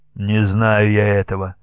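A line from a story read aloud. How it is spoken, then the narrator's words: Muffled, dull voice. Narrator (Russian): проговорил глухо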